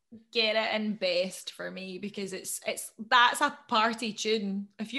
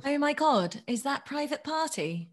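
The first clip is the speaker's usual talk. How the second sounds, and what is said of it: Put-on Essex accent. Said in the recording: “You hate when I do an accent. ... it's that Essex one you do. It's creepy. It's like you're a different person.”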